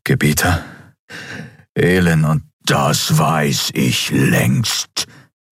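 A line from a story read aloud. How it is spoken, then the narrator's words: Thundering emperor. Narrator (German): donnerte der Kaiser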